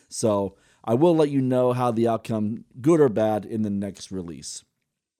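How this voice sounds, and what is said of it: Slightly hoarse voice. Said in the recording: “you can probably hear my voice. I'm a little hoarse from all the screaming.”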